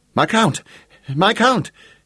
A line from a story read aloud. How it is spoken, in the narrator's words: breathlessly like a frenzied gnome